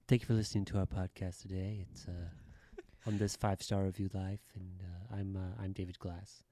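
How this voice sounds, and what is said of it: NPR-style radio announcer voice. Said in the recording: “you were doing kind of an NPR type of voice ... take us out of the podcast with that NPR voice ... you might need to get a little closer to the mic on that NPR voice”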